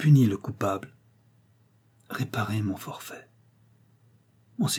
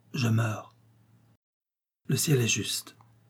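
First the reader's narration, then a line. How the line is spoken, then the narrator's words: Barely intelligible, broken by death rattle. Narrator (French): dit-il d'une voix à peine intelligible, interrompue encore par le râle saccadé qui soulevait sa poitrine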